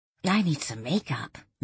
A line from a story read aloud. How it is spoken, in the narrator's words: Danielle muttered